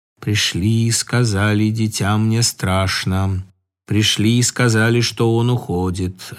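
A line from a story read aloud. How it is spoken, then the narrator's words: Unexpectedly brisk voice. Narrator (Russian): отозвался Игорь неожиданно бодрым голосом, словно и не спал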